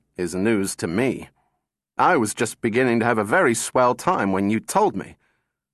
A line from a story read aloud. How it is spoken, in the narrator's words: said Donovan bitterly